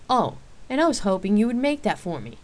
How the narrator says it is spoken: answered teasingly

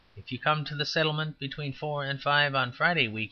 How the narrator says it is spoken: he said

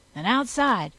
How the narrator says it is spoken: snapped

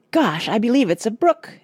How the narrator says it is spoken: exclaimed Rush

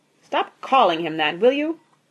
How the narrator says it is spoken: snapped Mr

